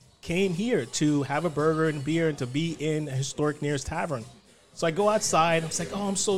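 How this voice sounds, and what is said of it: Usual voice. Nothing is said of it.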